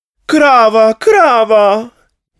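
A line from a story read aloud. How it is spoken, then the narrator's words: Pleading. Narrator (Slovenian): je prosila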